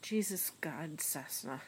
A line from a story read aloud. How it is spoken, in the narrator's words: he said at last, snorting with mirth